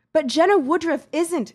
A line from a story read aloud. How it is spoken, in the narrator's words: she snapped